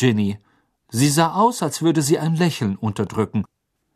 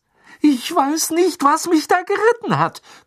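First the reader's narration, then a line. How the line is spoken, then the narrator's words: Gasping. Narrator (German): keuchte Ron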